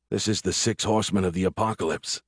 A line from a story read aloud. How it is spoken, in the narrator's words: I said, and heard my voice like someone else was speaking